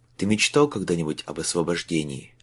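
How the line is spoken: Quiet question. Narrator (Russian): негромко спросил Майлз

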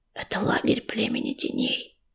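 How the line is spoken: Whisper right in ear. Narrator (Russian): шепнула пепелица в самое ухо листочки

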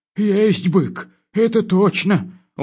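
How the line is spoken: Gloomy admission. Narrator (Russian): уныло признался комендант

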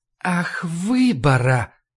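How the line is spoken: Drawl. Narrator (Russian): протянула Ларри

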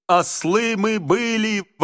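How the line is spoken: Yelling. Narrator (Russian): вопил Верзила

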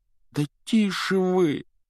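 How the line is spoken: Pleading. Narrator (Russian): взмолился Гарри

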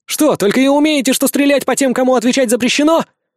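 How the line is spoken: Angry yell. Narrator (Russian): Гневно заорал я, когда не сумел уклониться от очередного шара

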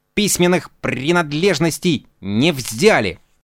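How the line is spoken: Grumbling. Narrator (Russian): Он проворчал

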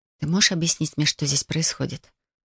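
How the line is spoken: Whispered question. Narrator (Russian): шепотом, спросила я

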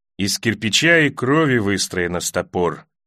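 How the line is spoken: Muttered. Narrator (Russian): пробормотал Белобородый

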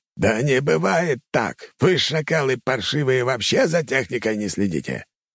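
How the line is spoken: Frantic commander yelling. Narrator (Russian): Командующий армией нападения орал не своим голосом на подчиненных

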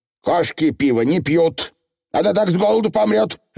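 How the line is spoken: Mother barking. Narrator (Russian): рявкнула матушка

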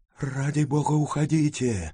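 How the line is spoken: Whisper. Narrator (Russian): прошептал другой голос над левым моим ухом

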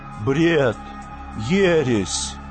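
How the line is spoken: Desperate muttering. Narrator (Russian): забормотал Гомер в отчаянии

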